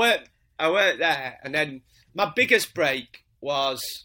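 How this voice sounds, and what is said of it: Usual voice. Nothing is said of it.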